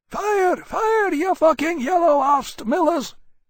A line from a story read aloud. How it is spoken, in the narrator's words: MacReady yelling hoarsely